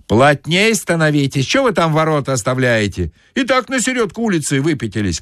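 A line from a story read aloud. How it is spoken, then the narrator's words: Shout from behind. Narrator (Russian): крикнули сзади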